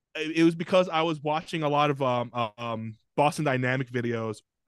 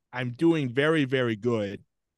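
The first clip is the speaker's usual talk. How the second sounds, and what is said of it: Robotic-sounding voice. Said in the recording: “It was more robotic than I imagined.”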